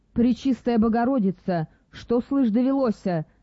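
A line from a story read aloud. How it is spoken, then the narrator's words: Princess exclaiming feigned horror. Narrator (Russian): с прекрасно разыгранным ужасом воскликнула царевна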